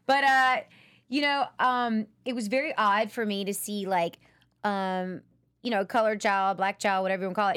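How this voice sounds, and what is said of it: Mississippi Southern US accent. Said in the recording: “Is that where that accent is from?”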